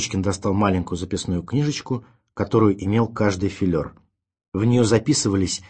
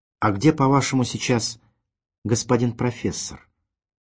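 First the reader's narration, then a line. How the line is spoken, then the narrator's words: Gentle affectionate question. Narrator (Russian): также ласково спросил Родион Георгиевич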